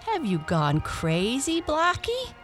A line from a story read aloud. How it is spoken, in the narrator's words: he asked as well as he could for laughing